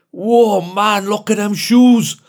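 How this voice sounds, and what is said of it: Slight put-on Geordie accent. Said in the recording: “Just outside Newcastle, actually. That's why there's a slight tinge on the accent.”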